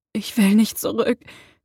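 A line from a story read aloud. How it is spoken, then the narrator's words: Breathless panting. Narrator (German): keuchte Harry atemlos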